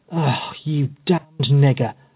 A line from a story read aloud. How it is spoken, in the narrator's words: muttered Epps in a surly, malicious tone of voice